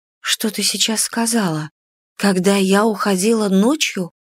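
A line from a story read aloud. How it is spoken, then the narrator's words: Frightened pleading. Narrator (Russian): выпросила я испуганно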